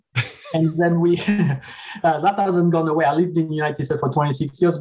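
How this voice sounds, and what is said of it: Slight French accent. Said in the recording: “I grew up in France, as you can hear from my accent... Small accent”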